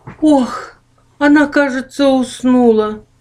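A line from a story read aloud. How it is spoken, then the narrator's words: Sigh. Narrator (Russian): больше всех желавший познакомиться с гостей вздохнул Ох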